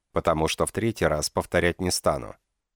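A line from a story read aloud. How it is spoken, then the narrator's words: Cold command. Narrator (Russian): приказал я холодно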